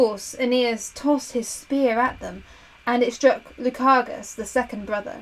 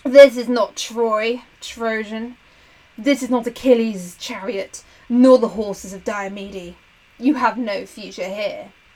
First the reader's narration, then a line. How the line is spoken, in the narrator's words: Lyger the first snarled